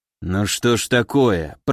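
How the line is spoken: Grumbling. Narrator (Russian): проворчал Григориан

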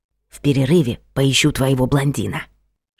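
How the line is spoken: Whisper. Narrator (Russian): шепнула Машка на ухо приятельнице

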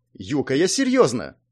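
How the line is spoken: Angry indignation. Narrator (Russian): возмутилась сердито Сонг

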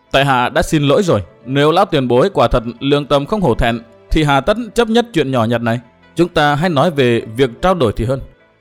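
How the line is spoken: Smiling calm speech. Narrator (Vietnamese): Cố Kiếm Nam ... mỉm cười nói

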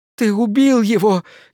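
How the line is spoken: Hysterical sobbing girl. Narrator (Russian): истерически зарыдала девушка

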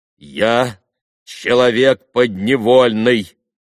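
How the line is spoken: Sudden, loud, deliberate. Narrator (Russian): вдруг громко и раздельно проговорил Григорий

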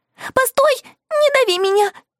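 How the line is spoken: Small creature pleading. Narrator (Russian): взмолился жучок

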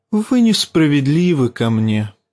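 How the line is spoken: Sad. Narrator (Russian): печально сказал Варис

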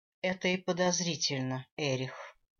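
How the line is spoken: Weary voice. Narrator (Russian): усталым голосом произнесла королева

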